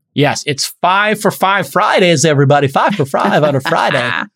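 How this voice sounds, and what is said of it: Exaggerated radio DJ announcer voice. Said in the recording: “That's my Z100 radio voice.”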